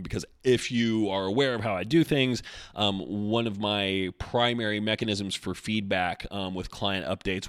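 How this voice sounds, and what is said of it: Worn-out, strained voice. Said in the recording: “My voice is pretty much shot”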